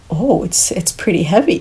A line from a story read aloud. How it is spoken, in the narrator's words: he chuckled